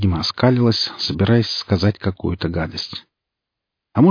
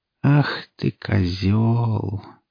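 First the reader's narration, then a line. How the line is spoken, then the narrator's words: Sad mumble. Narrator (Russian): печально пробормотала она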